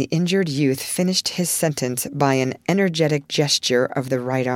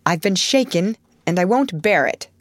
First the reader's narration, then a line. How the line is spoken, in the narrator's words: growled Lori indignantly